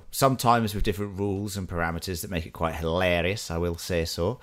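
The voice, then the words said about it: Put-on Scottish accent. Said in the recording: “Was that a Scottish accent?”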